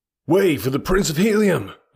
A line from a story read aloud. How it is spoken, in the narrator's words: I shouted